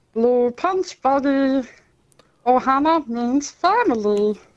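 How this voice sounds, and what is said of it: Impression of Stitch. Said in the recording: “That's the second best stitch we've heard.”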